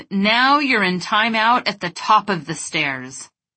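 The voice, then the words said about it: Forceful, commanding voice. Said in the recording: “In my most powerful voice,”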